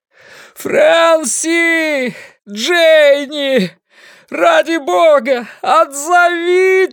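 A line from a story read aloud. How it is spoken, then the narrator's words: Shouting into the night. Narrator (Russian): Ламли прокричал в ночь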